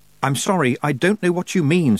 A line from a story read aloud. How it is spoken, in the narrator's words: said Tiffany desperately